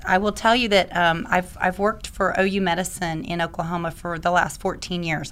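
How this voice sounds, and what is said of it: Slightly raspy voice. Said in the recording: “my voice is a little bit raspy today. I've had allergies”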